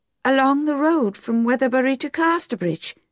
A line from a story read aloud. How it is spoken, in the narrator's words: she asked eagerly